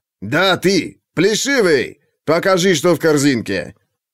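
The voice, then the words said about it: Harsh foreign accent, guard voice. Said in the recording (Russian): “с резким акцентом ... скифский стражник”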